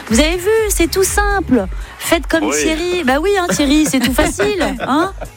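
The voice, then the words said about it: Put-on Belgian French accent. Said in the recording (French): “j'ai pris l'accent belge.”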